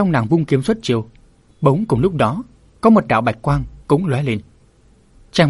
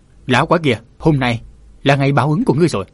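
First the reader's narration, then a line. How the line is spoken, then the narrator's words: Woman shouting. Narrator (Vietnamese): Nàng quát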